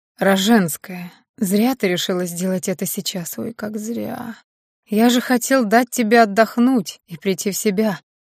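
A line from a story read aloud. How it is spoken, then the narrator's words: Hoarse whisper. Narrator (Russian): хрипло прошептал Дарлинг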